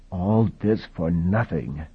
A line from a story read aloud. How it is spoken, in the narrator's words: he said softly